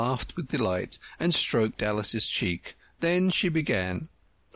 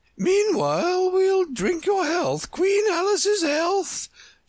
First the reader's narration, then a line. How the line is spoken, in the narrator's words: she screamed at the top of her voice